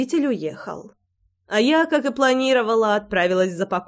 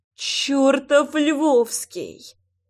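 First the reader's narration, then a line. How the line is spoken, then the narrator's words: Muffled moan. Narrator (Russian): простонала я, прикусив губу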